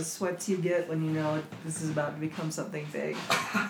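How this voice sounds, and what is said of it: Congested voice from a cold. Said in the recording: “As you can tell, I have a cold,”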